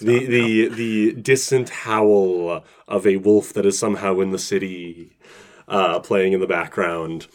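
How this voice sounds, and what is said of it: Spooky narrating voice. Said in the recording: “I love your spooky voice.”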